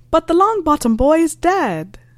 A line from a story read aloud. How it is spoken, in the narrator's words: shouting after him